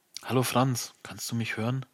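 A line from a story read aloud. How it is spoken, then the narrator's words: Voice inside head. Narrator (German): seine Stimme in meinem Kopf ertönt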